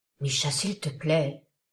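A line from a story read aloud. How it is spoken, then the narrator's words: Toneless pleading. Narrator (French): le priai-je d'une voix blanche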